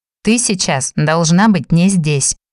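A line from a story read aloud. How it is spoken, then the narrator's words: Calm. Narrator (Russian): спокойным тоном ответил он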